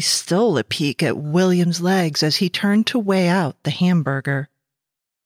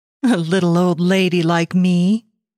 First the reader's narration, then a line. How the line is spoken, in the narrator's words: she said with a small laugh